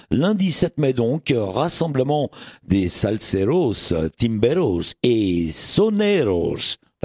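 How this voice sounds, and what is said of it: Put-on Spanish accent. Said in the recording (French): “t'as pris l'accent. ... espagnol.”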